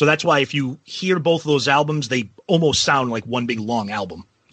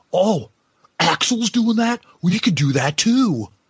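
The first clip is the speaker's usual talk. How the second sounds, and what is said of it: Imitates another person's voice. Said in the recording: “that's not a bad impression.”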